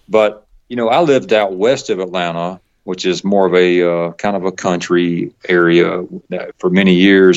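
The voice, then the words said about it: Southern accent with Texas sound. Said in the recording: “I've been told I have kind of a Texas sound to my accent ... so much of the Southern accent that I have”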